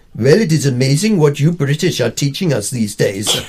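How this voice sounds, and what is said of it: Put-on Indian accent. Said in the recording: “In my best Shishi Indian accent”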